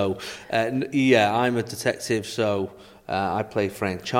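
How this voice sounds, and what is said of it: Usual voice. Nothing is said of it.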